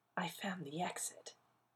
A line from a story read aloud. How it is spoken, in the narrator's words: he whispered